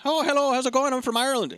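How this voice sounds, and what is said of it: Lazy, half-hearted put-on Irish accent. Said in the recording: “just like a guy going, oh, I can do an Irish accent ... he's not trying very hard”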